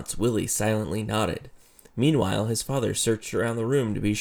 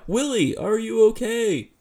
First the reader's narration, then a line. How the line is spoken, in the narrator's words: Fiona cried out